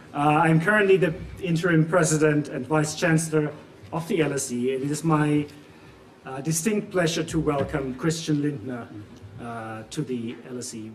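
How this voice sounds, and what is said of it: German accent. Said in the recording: “As you can tell from both my accent and the name, I'm German as well.”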